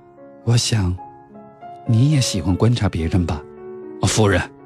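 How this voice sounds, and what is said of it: Quiet, hushed speech. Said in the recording (Chinese): “小声”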